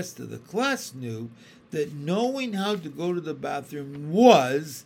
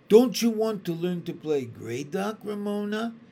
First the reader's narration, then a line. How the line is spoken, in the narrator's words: Miss Binney asked